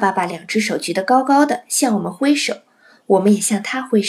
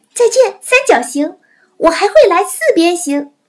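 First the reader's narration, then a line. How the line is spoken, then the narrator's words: Joking call. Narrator (Chinese): 我开玩笑的叫着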